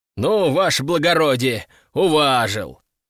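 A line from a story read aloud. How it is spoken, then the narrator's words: Loud laughter. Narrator (Russian): хохотали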